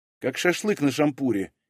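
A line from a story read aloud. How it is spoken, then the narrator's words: Slightly irritated. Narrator (Russian): немного раздраженно ответила Вера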